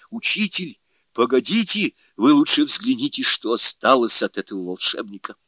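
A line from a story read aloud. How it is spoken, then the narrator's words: Exclaiming. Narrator (Russian): Суню-кун воскликнул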